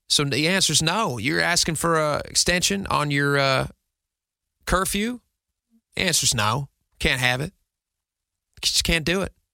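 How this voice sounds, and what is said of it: Put-on Southern accent. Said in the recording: “I apologize for the Western accent, for the Southern accent. It's just not good. I don't know why I fell into that.”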